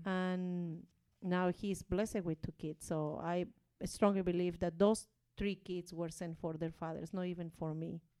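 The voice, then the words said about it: Non-native English accent. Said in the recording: “I'm so sorry for the accent, though... my bad English”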